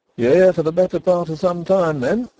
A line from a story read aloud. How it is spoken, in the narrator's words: exclaimed Mrs